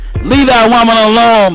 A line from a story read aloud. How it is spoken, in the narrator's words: the judge barked